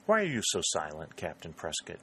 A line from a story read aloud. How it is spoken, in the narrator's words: she asked